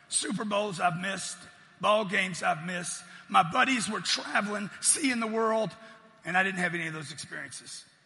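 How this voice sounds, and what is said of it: Hoarse, strained voice. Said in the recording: “my voice is blown out already”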